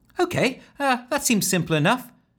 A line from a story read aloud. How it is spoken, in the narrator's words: chirped Ellen, keen to see it in action